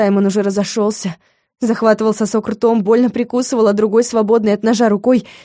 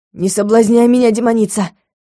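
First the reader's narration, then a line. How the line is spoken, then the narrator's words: Angry retort. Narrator (Russian): зло бросил он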